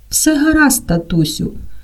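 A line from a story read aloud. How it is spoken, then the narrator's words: Gentle. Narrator (Ukrainian): лагідно скаже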